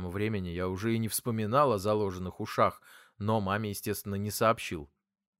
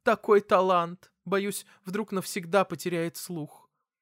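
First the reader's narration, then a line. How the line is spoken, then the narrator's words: Mother sobbing. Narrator (Russian): Мама всхлипнула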